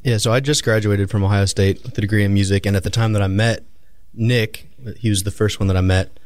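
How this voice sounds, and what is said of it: Good radio voice. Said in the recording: “you have a good radio voice”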